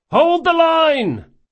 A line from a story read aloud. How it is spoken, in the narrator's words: shouted